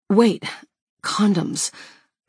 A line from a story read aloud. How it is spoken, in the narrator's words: I groan into his mouth